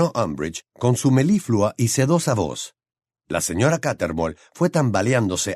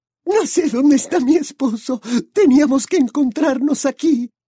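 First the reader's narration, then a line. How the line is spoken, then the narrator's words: Crying woman exclaiming. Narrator (Spanish): La mujer rompió a llorar y exclamó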